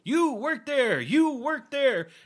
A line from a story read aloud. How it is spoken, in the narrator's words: Scourge yelling out jobs left and right